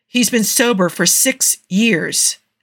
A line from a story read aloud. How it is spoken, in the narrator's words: Steve snapped back